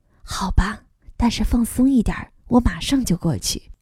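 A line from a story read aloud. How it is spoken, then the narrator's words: Soft voice. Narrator (Chinese): 轻声说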